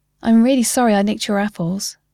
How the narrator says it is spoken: Col said

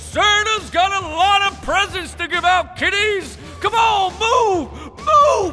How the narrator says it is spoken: I'm yelling

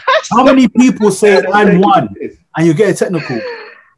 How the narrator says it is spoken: I screamed

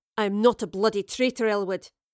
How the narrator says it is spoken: Beric growled

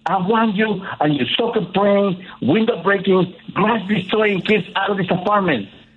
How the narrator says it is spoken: the landlord screamed at my mother

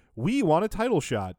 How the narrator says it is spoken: Knobs keeps shouting over him

